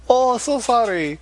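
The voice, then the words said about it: Put-on Asian accent. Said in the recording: “the Asian accent ... That's my Asian imitation.”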